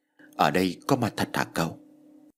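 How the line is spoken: Stammering. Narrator (Vietnamese): Ông mua đất lắp bắp

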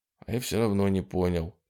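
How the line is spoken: Quiet speech. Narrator (Russian): тихо сказал Труман

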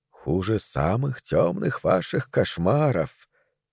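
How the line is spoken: Quiet. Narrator (Russian): тихо ответила она

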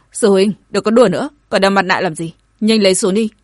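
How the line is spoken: Angry speech. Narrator (Vietnamese): tức giận nói

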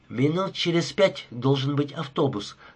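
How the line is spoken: Plain. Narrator (Russian): сказала Рима

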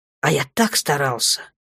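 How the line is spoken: Muffled growl. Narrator (Russian): Даша зарычала у него под мышкой

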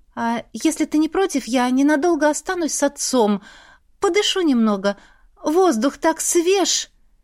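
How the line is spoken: Forced cheerfulness. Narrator (Russian): Преувеличенно бодро ответила я

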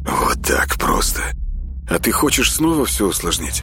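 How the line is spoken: Tired. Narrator (Russian): устало спросил Соник

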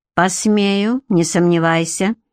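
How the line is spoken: Icy tone. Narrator (Russian): ледяным тоном бросил Гарик

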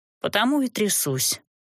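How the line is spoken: Dry reply. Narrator (Russian): сухо ответила я

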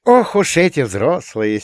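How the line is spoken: Condescending snort. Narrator (Russian): снисходительно фыркнула Юля

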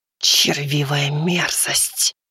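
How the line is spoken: Hissing. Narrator (Russian): прошипела шелковая тень

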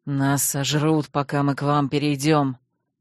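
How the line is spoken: Grim reply. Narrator (Russian): мрачно ответил чужой мечник

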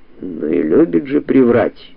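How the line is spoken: Grumbling. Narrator (Russian): буркнул адвокат

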